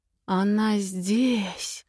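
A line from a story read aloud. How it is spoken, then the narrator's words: Breathless exhale. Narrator (Russian): выдохнул Харш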